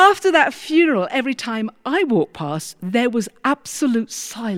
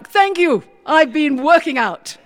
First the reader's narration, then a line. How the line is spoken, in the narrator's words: He just shouted back